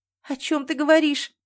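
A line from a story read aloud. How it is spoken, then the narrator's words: Sobbing. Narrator (Russian): я всхлипнула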